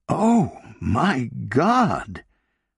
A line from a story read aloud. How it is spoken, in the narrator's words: exclaimed Sarah